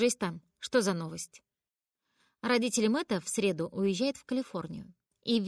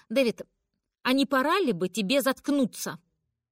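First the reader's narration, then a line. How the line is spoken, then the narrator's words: Snapping mother. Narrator (Russian): огрызнулась мама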